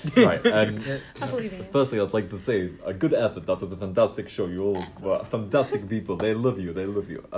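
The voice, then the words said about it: Put-on Russian accent. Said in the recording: “let me find my Russian accent”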